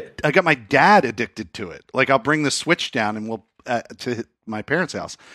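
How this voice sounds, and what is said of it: Usual voice. Nothing is said of it.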